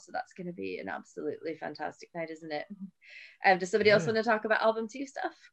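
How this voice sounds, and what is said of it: Calm voice with an accent. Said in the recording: “We love listening to your calm voice ... It's the accent.”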